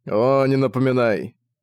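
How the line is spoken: Grumbling. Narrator (Russian): пробурчал Зак

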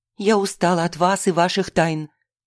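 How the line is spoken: Angry hiss. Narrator (Russian): сердито шипела Настя

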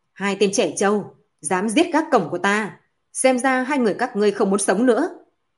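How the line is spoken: Loud shout, older demon. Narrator (Vietnamese): một yêu quái nhìn tuổi tác khoảng 50 tuổi lớn tiếng quát

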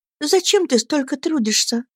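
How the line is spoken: Tender question. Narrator (Russian): спросила она нежно

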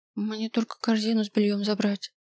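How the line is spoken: Mutter. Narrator (Russian): пробормотала я

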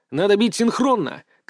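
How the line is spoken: Shout. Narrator (Russian): крикнул я

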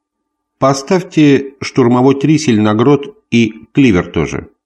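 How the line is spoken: Plain. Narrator (Russian): сказал Гриф помощнику

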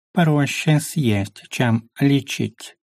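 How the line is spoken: Snide creature purring. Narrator (Russian): промурлыкала ехидная морда

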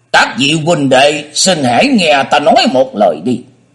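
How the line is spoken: Raised voice. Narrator (Vietnamese): y cất cao giọng nói

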